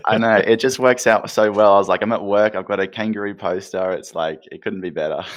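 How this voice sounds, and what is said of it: Australian accent. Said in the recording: “the accent is absolutely badass”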